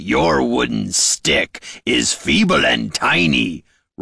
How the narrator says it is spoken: roared the orc

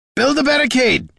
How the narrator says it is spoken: shouted Gorm

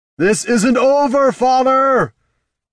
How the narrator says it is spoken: hollered, though he wasn't entirely sure that was the case

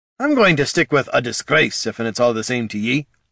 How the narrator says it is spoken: said Gorm

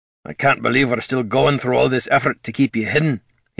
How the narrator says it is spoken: he grumbled

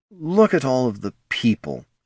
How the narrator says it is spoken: Handor muttered under his breath

